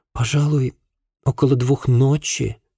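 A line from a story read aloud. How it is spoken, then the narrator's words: Uncertain woman's reply. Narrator (Russian): неуверенно ответила собеседница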